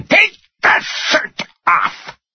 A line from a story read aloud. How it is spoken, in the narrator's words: Tony screamed